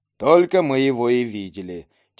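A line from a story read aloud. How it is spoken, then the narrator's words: Heavy doubtful sigh. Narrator (Russian): тяжело вздохнул сомневающийся легионер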